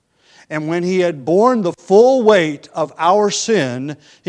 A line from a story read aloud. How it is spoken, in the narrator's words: he cried